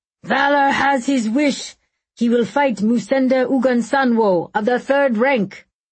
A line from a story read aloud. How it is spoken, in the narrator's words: The grand crier bellowed